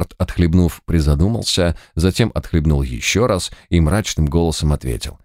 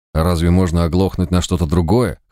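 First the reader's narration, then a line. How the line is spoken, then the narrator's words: Smirking snort. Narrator (Russian): хмыкнул читер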